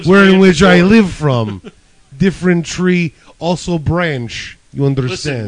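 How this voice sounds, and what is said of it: Put-on Russian accent. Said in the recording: “Just keep doing the accent. ... Funny that there's a Russian in this”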